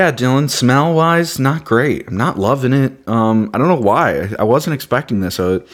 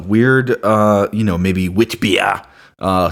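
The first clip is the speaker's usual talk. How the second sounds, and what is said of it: Put-on Belgian accent. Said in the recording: “do you like my Belgian accent there?”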